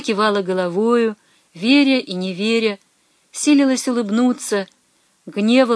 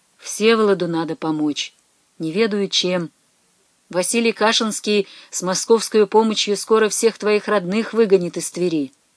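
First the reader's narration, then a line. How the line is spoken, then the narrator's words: Quiet. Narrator (Russian): сказал негромко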